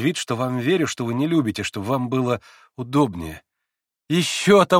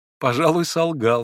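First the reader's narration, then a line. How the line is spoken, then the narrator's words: Laughing. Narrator (Russian): смеялся и Алеша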